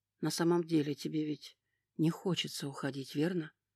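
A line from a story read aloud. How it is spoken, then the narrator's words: Whispered in ear. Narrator (Russian): шепнул на ухо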